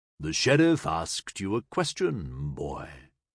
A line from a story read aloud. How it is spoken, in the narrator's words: said, his voice a deep rumble